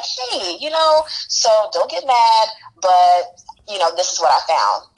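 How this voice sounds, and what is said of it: Calm, professional de-escalating HR voice. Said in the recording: “in my best HR voice ... de-escalate situations and having difficult conversations”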